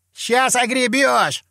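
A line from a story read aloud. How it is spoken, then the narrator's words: Shouting. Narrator (Russian): крикнул заводила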